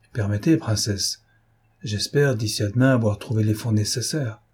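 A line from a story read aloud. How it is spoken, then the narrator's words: Perfectly clear voice. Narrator (French): dit Pierre d'une voix parfaitement nette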